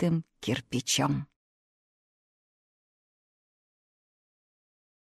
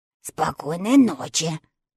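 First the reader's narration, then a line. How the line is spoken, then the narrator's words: Slightly hoarse. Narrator (Russian): сказала чучело немного хриплым голосом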